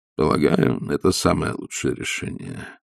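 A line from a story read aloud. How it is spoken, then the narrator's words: Sad. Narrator (Russian): печально сказал граф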